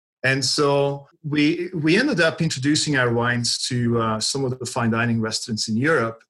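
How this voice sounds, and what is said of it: European accent. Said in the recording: “we have our European roots, from my accent.”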